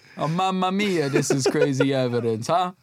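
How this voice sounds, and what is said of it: Put-on Italian accent. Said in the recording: “It's like you're just doing an Italian accent”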